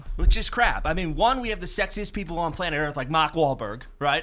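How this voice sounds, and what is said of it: Boston accent. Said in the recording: “The Boston accent, our midday guy and producer ... This accent is by far the best”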